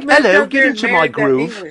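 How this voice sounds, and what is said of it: Mock English accent. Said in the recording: “English accent ... What did she sound like? ... Pretty much.”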